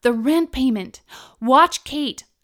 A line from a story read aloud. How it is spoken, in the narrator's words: I shouted to Aaron